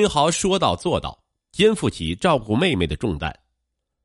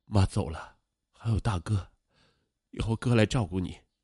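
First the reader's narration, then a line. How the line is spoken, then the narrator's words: Tender soothing. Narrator (Chinese): 罗明豪心疼的 柔声的安慰她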